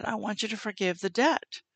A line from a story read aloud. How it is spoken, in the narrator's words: the father spoke to me quietly, and he said